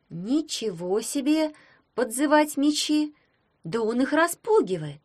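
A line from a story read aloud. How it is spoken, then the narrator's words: Little girl's exclamation. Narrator (Russian): воскликнула малютка Гроттер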